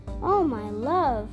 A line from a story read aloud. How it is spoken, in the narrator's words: cried Marian